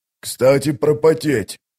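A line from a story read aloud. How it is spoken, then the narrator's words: Hoarse wheeze. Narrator (Russian): прохрипел Вал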